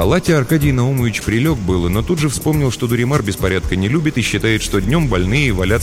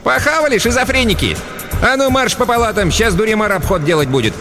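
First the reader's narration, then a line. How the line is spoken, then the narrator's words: Cheerful shouted order. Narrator (Russian): Сегодня Хмызочка была в хорошем настроении, тряпкой ни на кого не замахивалась, а весело прикрикнула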